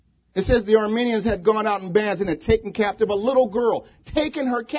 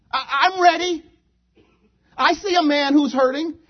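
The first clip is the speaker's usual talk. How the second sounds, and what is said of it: Little girl's squeaky voice. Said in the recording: “The little girl. ... In her little squeaky voice.”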